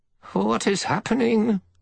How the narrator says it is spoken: The one-handed oldster was demanding in a shrill voice

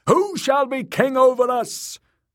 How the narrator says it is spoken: the priest cried once more

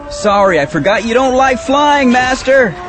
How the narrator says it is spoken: Anakin said, his voice rising at the end

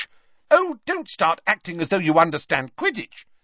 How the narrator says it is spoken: snapped Ginny

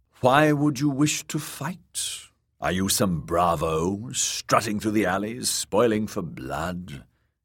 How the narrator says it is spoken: He sighed

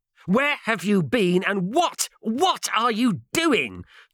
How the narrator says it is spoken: Turlow spluttered angrily

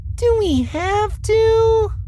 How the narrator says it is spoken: Abeg asked in a whiny voice

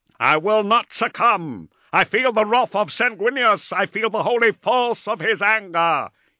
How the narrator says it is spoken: roared

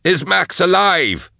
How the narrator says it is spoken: Drusha yelled

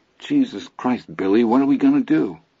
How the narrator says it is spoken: Charlie Hogan himself said in a trembling, crybaby voice

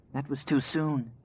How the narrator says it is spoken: she whispered

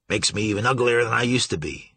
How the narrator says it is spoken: would growl

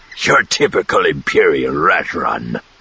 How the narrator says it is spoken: Zothip grunted

